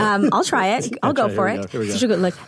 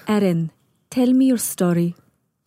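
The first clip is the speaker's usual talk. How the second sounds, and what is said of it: Imitated accent, calm but firm. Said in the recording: “my rheumatologist has this amazing accent that I cannot duplicate ... She's just got this beautiful accent, and she's very firm and strict with me ... It's calming, but also you're afraid of her a little”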